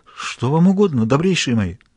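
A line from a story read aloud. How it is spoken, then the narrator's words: Terrified trembling mumble. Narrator (Russian): Полумертвый от страха, дрожа всем телом, Граляр пробормотал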